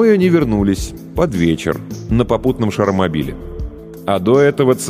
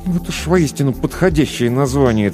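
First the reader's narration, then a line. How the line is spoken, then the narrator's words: Through gritted teeth. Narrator (Russian): цедил сквозь зубы Кир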